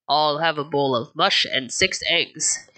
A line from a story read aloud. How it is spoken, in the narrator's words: he said in a deep voice